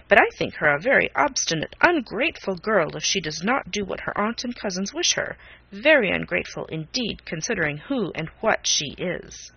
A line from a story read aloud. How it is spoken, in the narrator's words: Norris sharply